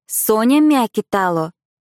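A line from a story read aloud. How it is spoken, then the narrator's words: Loud announcement. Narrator (Russian): громко произнесла Агнета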